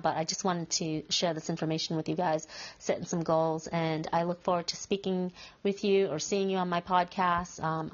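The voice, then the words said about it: Congested voice from a cold. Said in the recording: “I have a little bit of a cold, so it's hard to get this message out. I've been having a cold for quite some time now”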